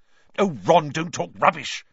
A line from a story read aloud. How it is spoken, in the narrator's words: snapped Hermione